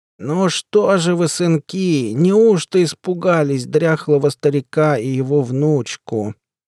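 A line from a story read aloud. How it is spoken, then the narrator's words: Creaky old man's voice. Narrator (Russian): проскрипел, как несмазанная дверь в сарае, дед Яков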